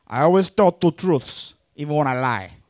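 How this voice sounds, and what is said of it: Hacky Tony Montana gangster impression. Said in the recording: “let's do a hacky Tony Montana impression. ... This is Tony Montana”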